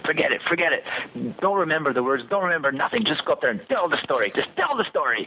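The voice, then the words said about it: Thick French accent. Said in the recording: “a big thick French accent.”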